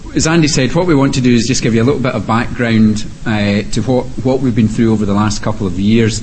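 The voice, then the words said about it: Non-local accent. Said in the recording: “I'm not local, so hopefully you won't have any trouble with the accent.”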